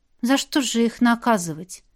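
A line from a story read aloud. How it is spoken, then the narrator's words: Heavy sigh. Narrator (Russian): тяжело вздохнула Вера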